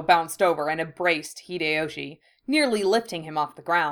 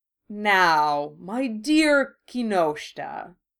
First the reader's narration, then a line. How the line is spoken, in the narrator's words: purred Otori